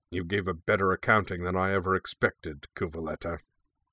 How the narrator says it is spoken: growled

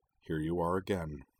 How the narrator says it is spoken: murmured

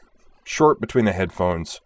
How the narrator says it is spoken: Starbuck snapped

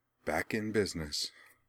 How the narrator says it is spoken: she murmured with an air of great satisfaction

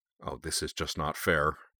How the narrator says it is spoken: I muttered

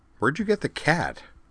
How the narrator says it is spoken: she added in a puzzled tone

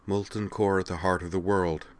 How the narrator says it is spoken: she chanted softly

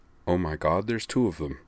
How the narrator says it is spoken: Geordie LaForge murmured behind his hand

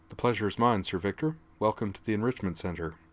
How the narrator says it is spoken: Skuld went slightly pink, but she learned court manners in Asgard, so she didn't falter as she replied

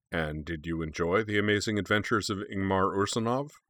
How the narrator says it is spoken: Ragnarsson asked dryly

